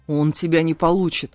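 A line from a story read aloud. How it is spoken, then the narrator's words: Growl. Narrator (Russian): прорычал мой бродяга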